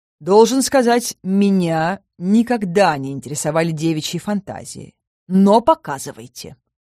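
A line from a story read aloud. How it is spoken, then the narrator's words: Growled. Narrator (Russian): Рыкнул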